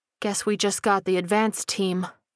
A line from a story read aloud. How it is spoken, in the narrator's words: Sparks muttered